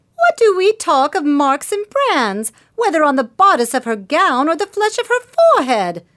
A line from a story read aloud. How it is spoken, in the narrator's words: cried another female, the ugliest as well as the most pitiless of these self-constituted judges